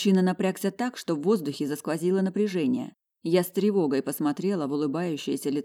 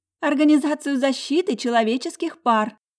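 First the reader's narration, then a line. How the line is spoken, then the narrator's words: Cheerful laughing chatter. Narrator (Russian): засмеявшись, девушка щебеча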